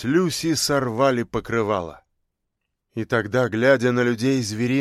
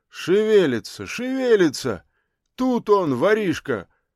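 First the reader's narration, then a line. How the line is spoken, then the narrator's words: Booming thunderous shout. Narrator (Russian): как из пушки, кто-то громовым голосом крикнул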